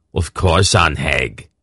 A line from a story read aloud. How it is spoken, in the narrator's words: Greldick growled